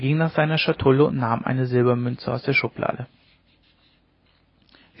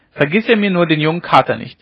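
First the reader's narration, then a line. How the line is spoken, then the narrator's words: Calling back. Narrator (German): rief sie noch zurück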